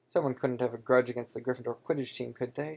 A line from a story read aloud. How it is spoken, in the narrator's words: said Hagrid anxiously